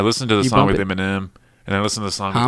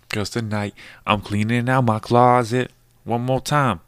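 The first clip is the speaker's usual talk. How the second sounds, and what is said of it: Imitates a rapper's voice. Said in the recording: “my Eminem impression.”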